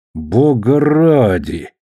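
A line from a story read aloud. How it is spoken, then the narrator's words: Angry muttering through teeth. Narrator (Russian): злобно ворчал Перри сквозь зубы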